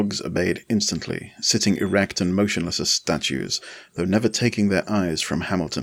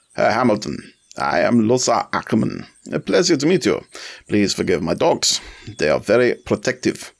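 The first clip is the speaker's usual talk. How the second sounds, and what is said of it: Thick German accent. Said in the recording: “Ackermann's accent was thickly Teutonic”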